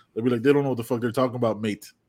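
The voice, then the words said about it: Mock British accent, mostly normal voice. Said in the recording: “That was my British accent. Just added the mate at the end when I just said shit regularly.”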